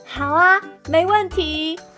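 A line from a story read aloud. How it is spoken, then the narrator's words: Loud and clear. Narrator (Chinese): 我大声又清楚地告诉酒窝女士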